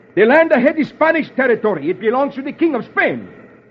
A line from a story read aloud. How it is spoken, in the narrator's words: The Spanish leader roars